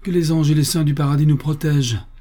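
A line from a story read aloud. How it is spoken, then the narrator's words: Exclaimed. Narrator (French): s'écria George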